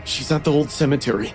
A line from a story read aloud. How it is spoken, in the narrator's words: I said, with my voice shaking